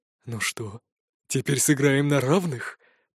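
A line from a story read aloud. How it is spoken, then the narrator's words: Whispered. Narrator (Russian): прошептал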